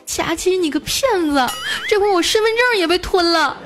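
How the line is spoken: Tearful voice. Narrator (Chinese): 带着哭腔跟我说

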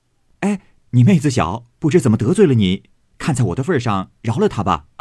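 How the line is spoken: Hurried, smiling. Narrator (Chinese): 宝玉连忙带笑 说道

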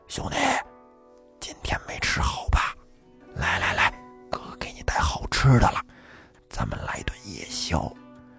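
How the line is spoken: Quiet. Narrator (Chinese): 小声的跟马介甫说

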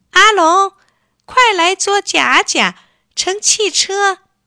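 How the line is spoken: Eager shout. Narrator (Chinese): 丽丽一见，忙……大叫

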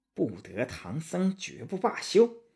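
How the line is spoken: Through gritted teeth. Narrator (Chinese): 白骨精咬牙说

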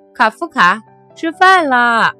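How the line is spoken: Father calling out. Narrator (Chinese): 爸爸在叫他

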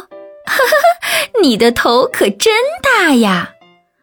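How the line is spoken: Loud laughter. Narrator (Chinese): 阿姨却大笑着说

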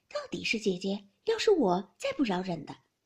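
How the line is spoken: Laughing. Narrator (Chinese): 黛玉笑道

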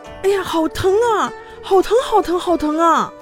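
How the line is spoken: Quick addition. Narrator (Chinese): 立刻又补充道

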